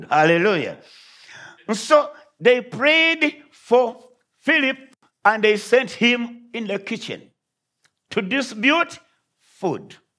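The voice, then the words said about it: Speaker's own foreign accent. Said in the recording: “I pray you understand my accent”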